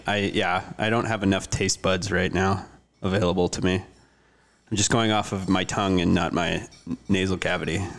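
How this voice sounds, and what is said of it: Stuffy, congested voice. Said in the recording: “I have a bit of a cold.”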